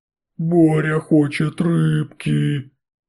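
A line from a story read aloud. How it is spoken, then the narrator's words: Creaky rasp. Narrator (Russian): проскрипел мутант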